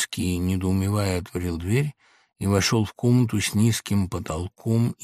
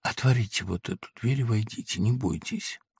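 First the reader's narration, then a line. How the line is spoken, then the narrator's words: Breathless whisper. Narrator (Russian): тяжело перевел дух и сказал шепотом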